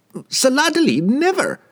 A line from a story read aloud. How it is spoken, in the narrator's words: the merchant stammered